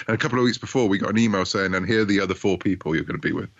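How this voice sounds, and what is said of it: British accent. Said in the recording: “because I'm a Brit, as you might gather from my accent”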